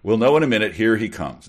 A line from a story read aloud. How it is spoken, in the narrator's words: Encyclopedia said